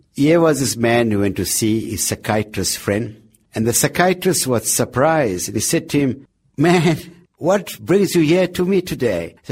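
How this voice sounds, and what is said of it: Attempted American accent. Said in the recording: “I'll attempt an American accent”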